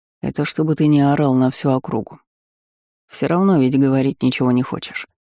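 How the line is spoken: Calm. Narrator (Russian): произнес я спокойно

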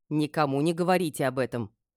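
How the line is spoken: Stern. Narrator (Russian): строго сказала

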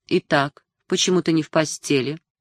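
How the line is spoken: Calm, suppressed fury. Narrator (Russian): разъярило его еще больше, но он спросил спокойно

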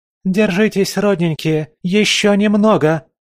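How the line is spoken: Shouting. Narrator (Russian): кричала она

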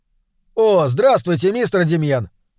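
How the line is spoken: Shouted. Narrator (Russian): закричал Джеймс

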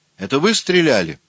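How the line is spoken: Angry shout. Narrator (Russian): сердито крикнула

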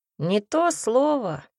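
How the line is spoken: Snort. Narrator (Russian): фыркнул оборотень

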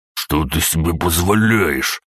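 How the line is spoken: Hissing. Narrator (Russian): прошипел Аврелий

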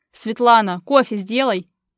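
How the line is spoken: Shout. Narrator (Russian): крикнул Иван

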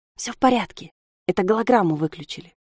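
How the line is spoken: Whisper. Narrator (Russian): шепнули ему

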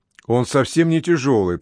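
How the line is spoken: Protesting exclamation. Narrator (Russian): протестующе воскликнул Том

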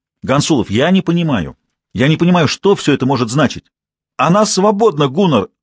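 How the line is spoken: Shouted. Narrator (Russian): выкрикнул он

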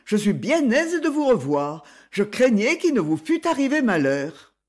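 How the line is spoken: Exclaimed. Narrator (French): s'écria-t-il

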